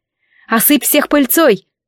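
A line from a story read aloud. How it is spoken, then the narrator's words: Shouted into ear. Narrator (Russian): я выкрикнула ей в ухо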